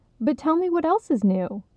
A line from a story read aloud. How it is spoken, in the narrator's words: Igmara insisted brightly